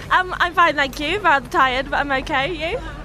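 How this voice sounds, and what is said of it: Vaguely Australian accent. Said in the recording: “in a vaguely Australian accent.”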